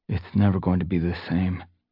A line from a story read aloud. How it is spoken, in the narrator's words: he muttered despondently